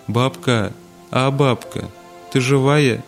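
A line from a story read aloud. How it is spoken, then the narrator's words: Frightened whimpering call. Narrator (Russian): начинала испуганно хныкать и звала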